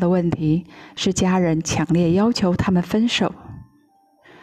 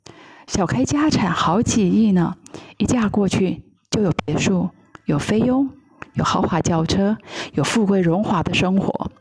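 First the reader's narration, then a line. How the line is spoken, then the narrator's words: Low persuading mother. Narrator (Chinese): 母亲低声劝他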